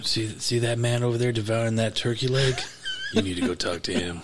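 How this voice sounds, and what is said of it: Imitates another person's voice. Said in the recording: “That's my Luke impression. ... I made it sound like Dirty Harry.”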